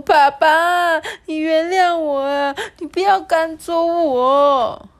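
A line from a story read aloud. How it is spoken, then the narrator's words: Wailing, sobbing. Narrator (Chinese): 企鹅就嚎啕大哭，说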